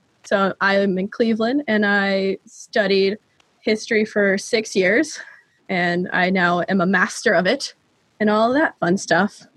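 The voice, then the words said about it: American accent. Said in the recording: “obviously by my accent, in America”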